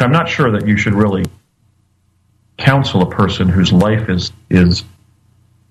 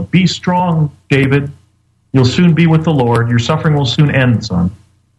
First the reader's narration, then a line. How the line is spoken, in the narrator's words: She began yelling